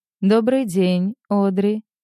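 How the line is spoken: Calm. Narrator (Russian): спокойно произносит он

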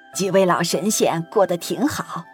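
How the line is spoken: Smiling. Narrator (Chinese): 崔苗 笑了笑

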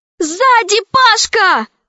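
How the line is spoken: Shouted. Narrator (Russian): крикнула Алиса

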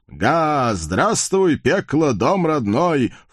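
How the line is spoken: Loud laughing. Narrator (Russian): в полный голос захохотал коварный байстрюк

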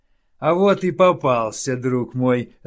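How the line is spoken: Laughing. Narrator (Russian): расхохотался Тардус

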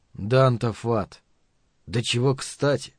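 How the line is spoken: Sighing. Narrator (Russian): вздохнул Каттерсон

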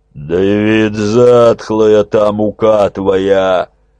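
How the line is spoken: Growl. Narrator (Russian): прорычал Тысяцкий Анастасий

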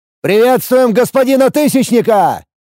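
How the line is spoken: Barked greeting. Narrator (Russian): Гаркнул я

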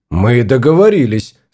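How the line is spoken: Dry. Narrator (Russian): сказал он сухо

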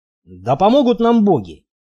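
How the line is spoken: Gloomy man's smirking grumble. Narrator (Russian): вечно хмурый Стоук и тот усмехнулся, проворчав

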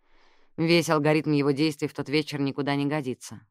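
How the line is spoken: Sighing. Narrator (Russian): вздохнула Джаз

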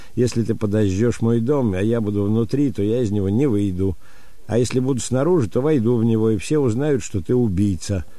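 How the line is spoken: Laughing female reply. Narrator (Russian): А я ему ответила с хохотом, сообщила она нам

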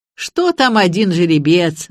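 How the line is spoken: Laughing. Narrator (Russian): засмеялся Петр Андреевич

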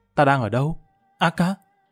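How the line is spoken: Drowsy mumbling. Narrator (Vietnamese): Y Liên hai mắt từ từ mở ra, lẩm bẩm

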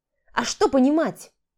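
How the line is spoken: Rude interruption. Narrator (Russian): Грубо оборвала

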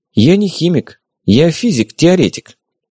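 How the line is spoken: Guilty voice. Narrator (Russian): виноватым голосом сказала

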